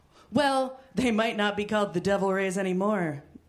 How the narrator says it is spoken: Daryl purred

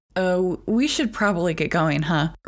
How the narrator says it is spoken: Rory laughed nervously

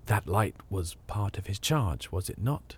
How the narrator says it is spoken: He answered in a low voice

